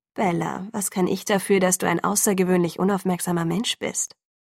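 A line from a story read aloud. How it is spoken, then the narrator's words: Calm, velvety, muted. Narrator (German): Stimme war so ruhig wie gewohnt, samtweich und gedämpft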